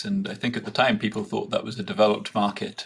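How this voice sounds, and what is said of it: Speaker's own foreign national accent. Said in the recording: “my accent gives away that I live in a country where the equity market fell just over 80% in 12 months in the 1970s”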